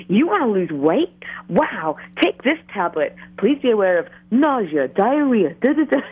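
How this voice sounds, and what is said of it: Put-on American accent, advert voice. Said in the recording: “she does a better American accent than we do”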